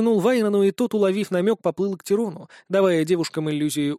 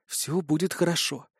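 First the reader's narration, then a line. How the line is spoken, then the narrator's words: Quiet, soothing. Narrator (Russian): тихо сказала она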